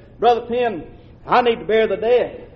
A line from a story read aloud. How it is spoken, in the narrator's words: I'd said